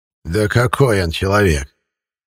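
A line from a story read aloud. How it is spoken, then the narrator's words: Old man scoffing. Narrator (Russian): хмыкнул дед Силантий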